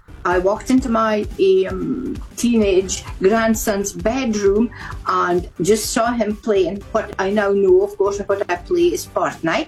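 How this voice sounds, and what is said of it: Scottish accent. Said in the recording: “Do I detect a Scottish accent in there, ... She is Scottish.”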